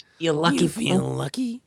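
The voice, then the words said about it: Good cartoon character voice impression. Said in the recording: “That's a really good Shaggy impression ... Shaggy as Clint Eastwood”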